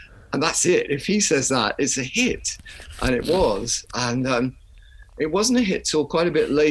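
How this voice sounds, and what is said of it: Usual voice. Nothing is said of it.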